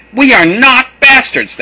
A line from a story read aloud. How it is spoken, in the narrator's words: they shouted